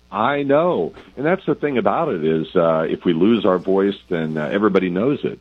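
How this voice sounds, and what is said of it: Voice recovering from a cold. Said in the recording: “your voice is kind of recovering. I know it's tough to kind of kick these summer colds”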